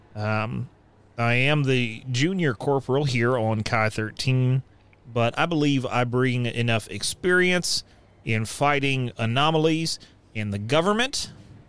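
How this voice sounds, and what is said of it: Strong Texas accent. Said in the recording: “I am from Texas, born and raised, as my outrageous accent would no doubt lead you to believe.”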